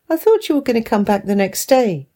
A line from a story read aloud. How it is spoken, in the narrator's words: replied calmly